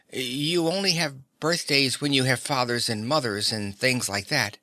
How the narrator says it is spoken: he suggested timidly

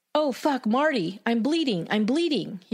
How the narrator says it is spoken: he cried out in shock and anger

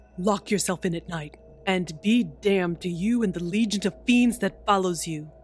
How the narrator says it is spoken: he shouted

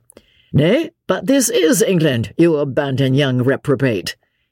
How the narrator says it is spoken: interposed Lord Antony with a laugh

